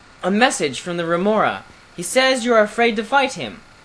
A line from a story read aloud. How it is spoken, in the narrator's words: cried